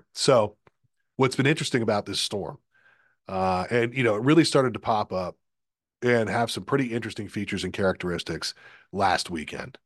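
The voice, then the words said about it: Hoarse, strained voice. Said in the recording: “I've been battling some form of a sore throat and a cough now for about 2.5 weeks ... I have had some voice issues here over the last 2 weeks or so ... My voice is a little bit blown out”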